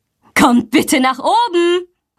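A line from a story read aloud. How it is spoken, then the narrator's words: Calling. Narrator (German): ruft sie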